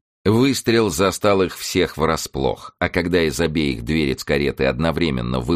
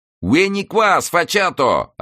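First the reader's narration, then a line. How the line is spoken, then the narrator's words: Yelling in Tuscan dialect. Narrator (Russian): орал ему вслед Дон Франсиско на чистом тосканском диалекте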